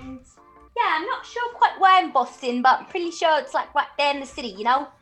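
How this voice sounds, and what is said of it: Put-on unidentified accent. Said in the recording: “what accent is this? ... I have no idea what accent this is, but it's kind of just coming out.”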